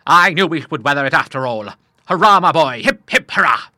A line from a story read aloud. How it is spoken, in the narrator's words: the old seaman bellowed out 3 stentorian cheers